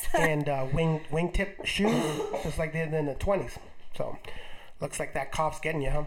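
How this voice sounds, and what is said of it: Slightly scratchy, under-the-weather voice. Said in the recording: “if my voice sounds horrific ... it is my voice that's a little scratchy ... we have been a little down under the weather”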